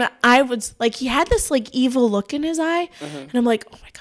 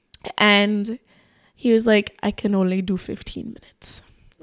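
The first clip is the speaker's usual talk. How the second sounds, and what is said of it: Poor put-on Spanish accent. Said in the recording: “I have such a shit Spanish accent”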